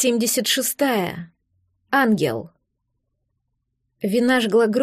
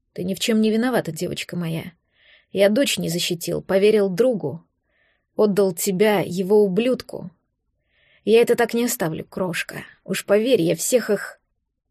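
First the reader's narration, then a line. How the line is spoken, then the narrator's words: Hoarse reply. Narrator (Russian): хрипло отвечал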